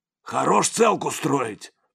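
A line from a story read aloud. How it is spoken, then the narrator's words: Angry retort. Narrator (Russian): сердито бросил Сипякин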